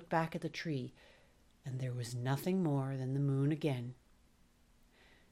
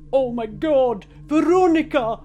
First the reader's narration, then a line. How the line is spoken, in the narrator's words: shouted